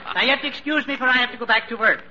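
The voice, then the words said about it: Scandinavian-sounding put-on accent. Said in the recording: “take that smorgasbord accent with you”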